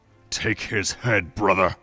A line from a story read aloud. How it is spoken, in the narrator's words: Daronia growled loud enough for all to hear